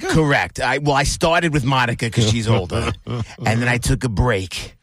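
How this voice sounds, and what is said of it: New York, Bronx-style accent. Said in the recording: “What is that accent? ... You sound like a period from the Bronx. ... I did have a stay in Long Island. ... that's mostly where I picked this up. ... this accent.”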